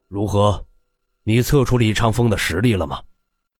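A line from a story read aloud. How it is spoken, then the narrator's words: Deep, grave question. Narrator (Chinese): 上官行沉声问道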